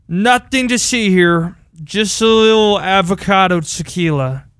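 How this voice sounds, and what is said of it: Slurred drunk-sounding voice. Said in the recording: “in my drunk person voice. I don't know if it's a good impression, but it's my drunk voice... Slurring the words a bit”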